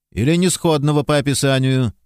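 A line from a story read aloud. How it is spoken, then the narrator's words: Sarcastic remark. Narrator (Russian): язвительно заметил секретарь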